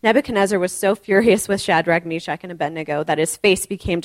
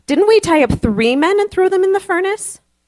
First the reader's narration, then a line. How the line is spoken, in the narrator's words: Nebuchadnezzar in amazement and exclaimed to his advisors